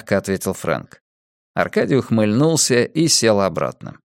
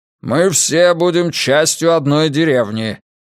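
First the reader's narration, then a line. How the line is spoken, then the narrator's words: Barking. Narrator (Russian): рявкнул Фрэнк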